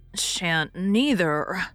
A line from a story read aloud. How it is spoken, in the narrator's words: muttered Dan